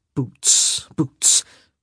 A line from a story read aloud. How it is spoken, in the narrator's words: he muttered